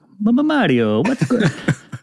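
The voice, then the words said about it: Put-on Italian accent. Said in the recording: “your Italian accent. That was pretty good.”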